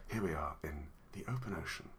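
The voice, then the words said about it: Bad nature documentary narrator impression. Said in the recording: “That was a really bad David Attenborough impression.”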